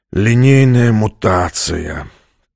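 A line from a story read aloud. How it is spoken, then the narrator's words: Groaning. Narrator (Russian): простонал командор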